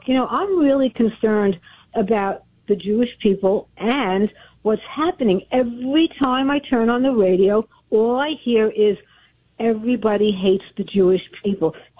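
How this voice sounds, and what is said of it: Brooklyn accent. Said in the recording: “It sounds like you're from Brooklyn.”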